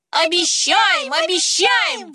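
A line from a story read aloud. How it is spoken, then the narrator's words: Children shouting. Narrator (Russian): закричали детишки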